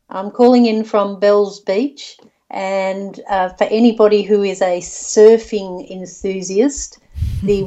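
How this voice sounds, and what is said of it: Australian accent. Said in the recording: “I feel at home already, especially when I hear your accent. I used to live in Australia”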